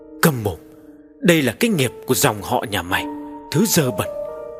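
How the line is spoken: Muttering. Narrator (Vietnamese): gã còn lẩm bẩm

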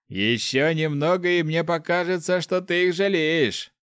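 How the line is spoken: Man's short laugh. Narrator (Russian): хохотнул мужчина

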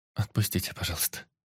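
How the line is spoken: Embarrassed girl near-whisper. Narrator (Russian): почти прошептала девушка краснее

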